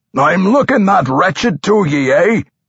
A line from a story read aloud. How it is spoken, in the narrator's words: the undead dwarf roared